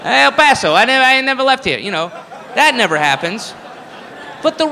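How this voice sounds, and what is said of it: Usual voice. Nothing is said of it.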